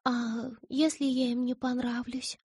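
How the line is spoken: Whisper. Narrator (Russian): прошептала

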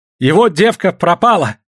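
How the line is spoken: Shouted. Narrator (Russian): крикнул Савоська

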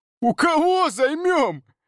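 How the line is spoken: Hysterical laughter. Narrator (Russian): Олег смеялся, но смех был истерический

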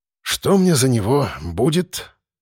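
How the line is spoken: Sorrowful sigh. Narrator (Russian): сокрушенно вздохнул

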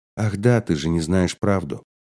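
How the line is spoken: Soft. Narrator (Russian): сказала мягко

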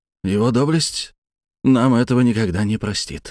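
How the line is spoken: Breathed out. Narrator (Russian): выдохнул Капелюш

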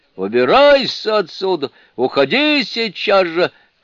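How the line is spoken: Shouted. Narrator (Russian): крикнул Лао-Дзюнь

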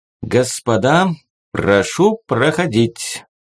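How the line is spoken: Solemn announcement. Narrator (Russian): торжественно объявил он

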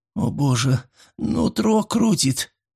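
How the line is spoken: Groaning in pain. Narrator (Russian): простонал Флип

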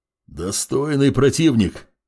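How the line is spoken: Growl. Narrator (Russian): прорычал здоровяк

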